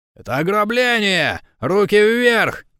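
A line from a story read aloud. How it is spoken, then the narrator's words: Male voice shouting. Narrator (Russian): кричал мужской голос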